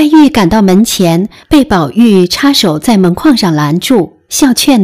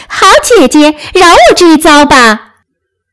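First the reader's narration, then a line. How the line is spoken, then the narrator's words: Laughing plea. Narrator (Chinese): 湘云 笑道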